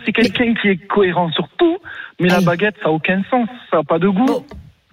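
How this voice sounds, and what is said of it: Regional southern French accent. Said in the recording (French): “est de Toulouse ... on a le petit accent, moi, en fait, j'adore.”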